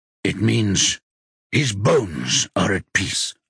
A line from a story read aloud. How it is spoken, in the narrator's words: Rocky says in a rough voice